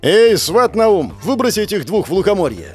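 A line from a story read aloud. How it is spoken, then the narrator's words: Shout. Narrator (Russian): крикнул Кощей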